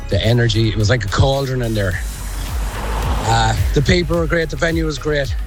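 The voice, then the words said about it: Hoarse, worn-out voice. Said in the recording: “My voice is gone.”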